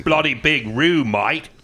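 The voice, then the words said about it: Put-on Australian accent. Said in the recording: “Of course, you're not Australian. ... accent time? ... Accents.”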